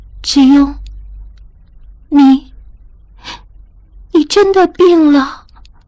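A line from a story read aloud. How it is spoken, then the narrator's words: Soft, choked with tears. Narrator (Chinese): 他柔声哽咽道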